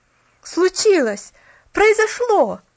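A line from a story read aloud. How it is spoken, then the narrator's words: Young man's excited exclamation. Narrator (Russian): воскликнул парнишка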